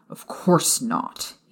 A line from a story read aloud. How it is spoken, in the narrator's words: he snarled